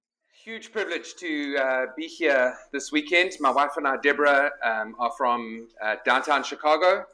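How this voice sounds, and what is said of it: Noticeable non-local accent. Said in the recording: “The accent gives it away, I know.”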